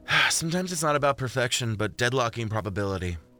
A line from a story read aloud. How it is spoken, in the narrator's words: Jordan sighed